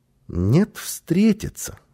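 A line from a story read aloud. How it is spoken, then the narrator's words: Calm child's reply. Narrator (Russian): спокойно ответил малыш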